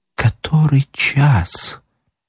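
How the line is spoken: Quiet plaintive voice. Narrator (Russian): проговорила тихим, жалобным голосом

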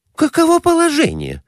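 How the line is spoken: Exclamation. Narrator (Russian): воскликнула Глафира Семеновна

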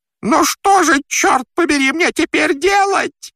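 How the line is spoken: Yelled. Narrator (Russian): завопил он

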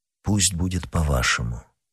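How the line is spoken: Sad. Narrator (Russian): грустно ответил Атос

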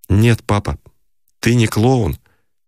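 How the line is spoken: Restrained, respectful, pained. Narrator (Russian): Он сказал сдержанным голосом уважения и боли

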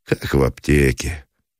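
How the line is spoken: Casual untroubled voice. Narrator (Russian): ответил Меженин будничным голосом человека, не омраченного угрызением совести

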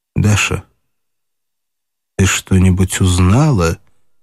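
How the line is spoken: Quiet question. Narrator (Russian): спросила она тихо

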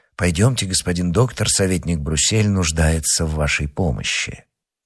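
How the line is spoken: Said quietly. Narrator (Russian): тихо сказать человеку в темном камзоле

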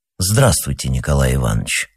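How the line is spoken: Solemn. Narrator (Russian): сказал Башкович торжественно

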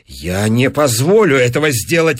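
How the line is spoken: Exclaimed. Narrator (Russian): воскликнул Кэмбль

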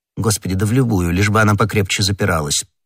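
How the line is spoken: Indifferent tone. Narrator (Russian): произнес комиссар безразличным тоном

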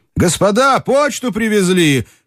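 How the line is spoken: Excited shout. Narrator (Russian): крикнул в дверь взволнованный голос

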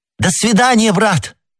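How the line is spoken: Shout. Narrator (Russian): крикнула миледи

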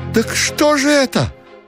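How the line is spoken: Thin high-pitched cry. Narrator (Russian): Ушатиков вскрикнул тоненько

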